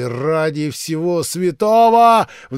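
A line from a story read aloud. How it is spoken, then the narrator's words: Sudden shout. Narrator (Russian): вдруг закричал он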